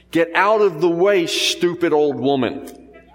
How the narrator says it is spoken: a boy who shouted

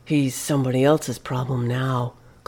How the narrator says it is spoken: Clyde had muttered with relief

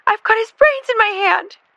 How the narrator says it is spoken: Jackie screamed

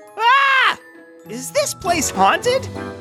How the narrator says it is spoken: screamed

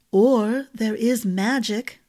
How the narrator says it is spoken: the ring said

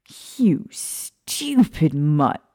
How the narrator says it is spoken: Remus snarled

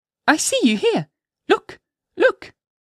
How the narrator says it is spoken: cried she

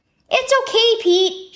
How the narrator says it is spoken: shouted Dad

